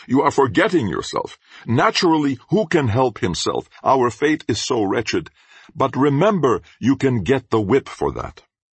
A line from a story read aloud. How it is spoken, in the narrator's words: immediately he shouts